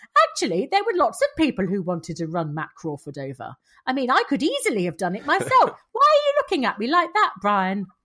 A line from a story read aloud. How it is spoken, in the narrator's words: Jenny, who is continuing her rapid descent into cheerful sociopath, said brightly